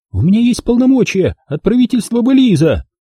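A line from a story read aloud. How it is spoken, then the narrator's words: Shout. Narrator (Russian): Выкрикнув это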